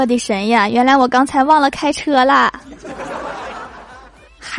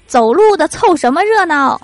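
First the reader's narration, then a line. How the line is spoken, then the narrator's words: Policeman yelling. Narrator (Chinese): 那个警察冲我大喊大叫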